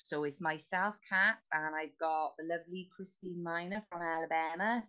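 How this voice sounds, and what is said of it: Welsh accent. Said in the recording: “the Welsh accent”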